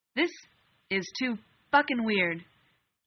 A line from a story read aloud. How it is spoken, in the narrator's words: Dean snapped